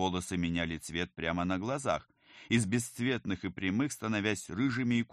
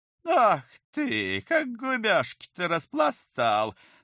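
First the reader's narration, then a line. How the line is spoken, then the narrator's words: Laughing woman. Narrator (Russian): захохотала стремительно хорошеющая и молодеющая женщина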